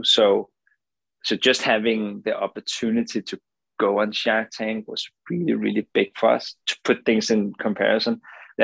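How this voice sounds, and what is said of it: Danish accent in English. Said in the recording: “as you can hear from the accent, I'm not native, right? I'm not from the US. I'm from Denmark.”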